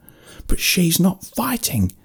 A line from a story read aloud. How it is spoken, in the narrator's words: shouted out